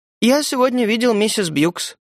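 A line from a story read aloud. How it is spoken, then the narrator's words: Detached, feigned calm. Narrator (Russian): Отрешенным, притворно спокойным голосом я сказал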